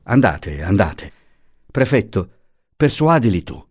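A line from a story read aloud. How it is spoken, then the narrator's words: Exclamation. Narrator (Italian): esclamò Franco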